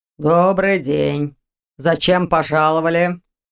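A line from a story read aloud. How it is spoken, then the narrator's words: Sniffling deep bass voice. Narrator (Russian): шмыгнул носом и пробасил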